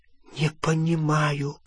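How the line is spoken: Whisper. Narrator (Russian): прошептала она

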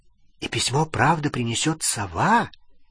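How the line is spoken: Quiet question. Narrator (Russian): тихо спросила Лили

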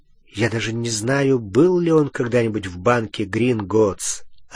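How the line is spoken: Plain. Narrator (Russian): ответил Гарри

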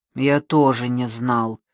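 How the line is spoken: Grumbled. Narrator (Russian): проворчал Мазукта

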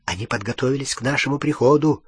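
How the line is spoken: Man whispering. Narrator (Russian): прошептал Гарри

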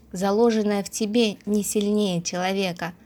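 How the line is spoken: Muttering to himself. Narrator (Russian): бормоча почти про себя

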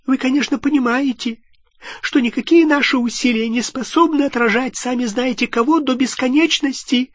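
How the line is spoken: Squeaky voice. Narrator (Russian): пропищал Флитвик

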